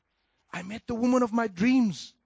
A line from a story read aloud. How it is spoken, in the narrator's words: said, raising his voice beyond a whisper and talking excitedly